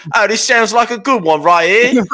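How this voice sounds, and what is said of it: Put-on Cockney accent. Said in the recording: “He's got a Cockney accent.”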